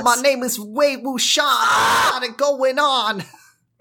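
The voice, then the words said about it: Imitates another person's voice. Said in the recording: “a very good impression of Mr. ... Lighter himself ... replicating the worst man imaginable”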